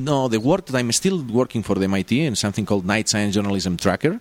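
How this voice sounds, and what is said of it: Non-native accented English. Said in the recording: “I can speak English in my accent and with my mistakes”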